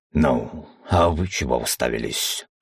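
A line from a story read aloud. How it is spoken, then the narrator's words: Growling. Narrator (Russian): зарычал тем временем на свидетелей Аргон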